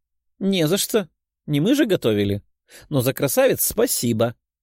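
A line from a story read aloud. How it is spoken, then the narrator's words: Giggling. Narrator (Russian): хихикнула Лиза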